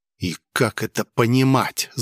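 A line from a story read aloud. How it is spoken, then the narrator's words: Angry whisper. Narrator (Russian): зло прошептал я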